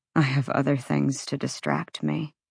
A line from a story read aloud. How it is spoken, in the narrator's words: he murmured